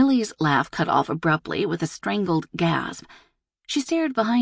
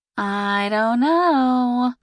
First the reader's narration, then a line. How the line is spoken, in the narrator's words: Lindsay drawled